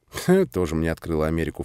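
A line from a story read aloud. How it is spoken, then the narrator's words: Snorting. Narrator (Russian): фыркнул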